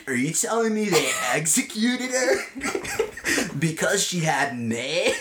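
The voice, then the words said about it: Imitates another person's voice. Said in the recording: “This is my impersonation of young Momoa ... Young Aquaman. Young Arthur.”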